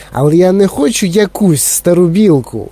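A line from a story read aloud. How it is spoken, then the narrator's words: Shrieking. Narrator (Ukrainian): верещала Верука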